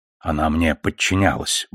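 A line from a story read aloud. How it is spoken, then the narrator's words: Mutter. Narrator (Russian): буркнул Фред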